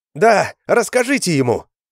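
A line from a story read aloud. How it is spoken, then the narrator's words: Shouting. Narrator (Russian): крикнула Шилка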